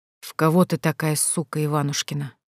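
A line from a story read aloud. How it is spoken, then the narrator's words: Hoarse speech. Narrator (Russian): хрипло проговорил он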